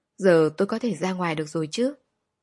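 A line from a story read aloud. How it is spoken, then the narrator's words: Cold question. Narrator (Vietnamese): cô lạnh lùng hỏi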